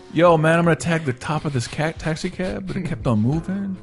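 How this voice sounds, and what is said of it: Put-on accent. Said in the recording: “don't do the accent.”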